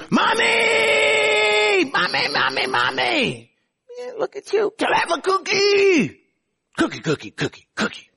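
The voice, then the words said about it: Loud yelling child's voice. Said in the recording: “why are you yelling?”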